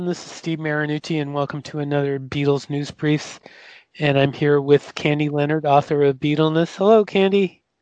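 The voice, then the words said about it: Slightly raspy voice. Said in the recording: “my voice sounds a little raspy, it's because I've been hit with a pretty bad cold”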